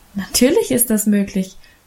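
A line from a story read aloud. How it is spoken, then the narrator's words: Laughing reassurance. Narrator (German): versicherte Emma lachend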